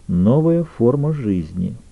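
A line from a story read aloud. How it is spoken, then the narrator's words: Quiet. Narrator (Russian): тихо ответила Эмма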